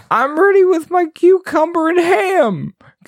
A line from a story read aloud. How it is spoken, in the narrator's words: Goblin Guard exclaimed